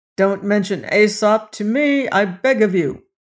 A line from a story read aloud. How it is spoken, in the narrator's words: exclaimed King Dox